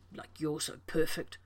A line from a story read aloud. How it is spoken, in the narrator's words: John muttered